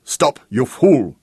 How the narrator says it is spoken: His voice was clear and urgent

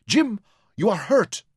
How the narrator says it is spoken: she cried

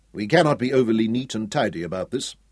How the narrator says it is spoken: Hal said

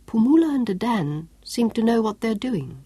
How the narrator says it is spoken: remarked softly

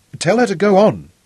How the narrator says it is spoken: he ordered Robin impatiently

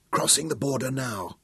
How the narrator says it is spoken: Nicholas breathed close to her face, and the tension was infectious

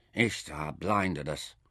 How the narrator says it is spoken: Nefer murmured

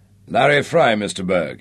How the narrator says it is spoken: growled

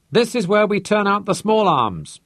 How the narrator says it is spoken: he shouted

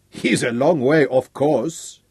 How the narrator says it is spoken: Abily chuckled

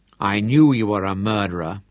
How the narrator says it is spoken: she said

